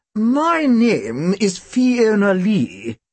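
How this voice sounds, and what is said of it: Very posh crisp accent. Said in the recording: “She had such a posh accent that when she spoke, you heard every letter.”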